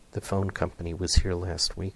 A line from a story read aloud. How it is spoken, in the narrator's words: whispered